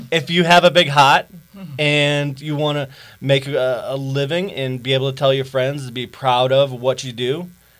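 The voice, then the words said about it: Boston accent, slow speech. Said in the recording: “my Boston accent ... he'll talk slow”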